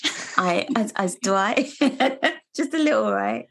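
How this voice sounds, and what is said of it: Wobbly put-on English accent. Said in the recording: “Is that your English accent? ... That was the worst English accent. ... That was not bad. It's not bad. ... From like British to Irish to like New York.”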